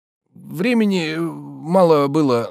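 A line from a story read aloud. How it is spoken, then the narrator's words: Hesitant, stammering. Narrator (Russian): начал он, запинаясь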